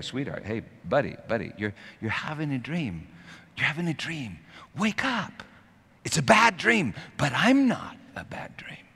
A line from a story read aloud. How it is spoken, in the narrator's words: You whisper in their ear